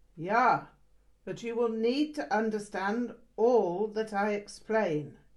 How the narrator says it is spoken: he barked

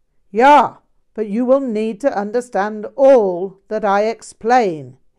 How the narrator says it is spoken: he barked

